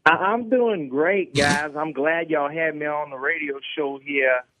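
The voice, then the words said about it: Brian Kelly impression, Southern accent. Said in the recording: “a little bit of a Cajun accent ... It's obviously a Southern accent.”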